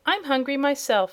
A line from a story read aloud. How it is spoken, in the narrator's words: said Zeb